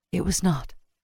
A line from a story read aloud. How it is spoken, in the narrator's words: she whispered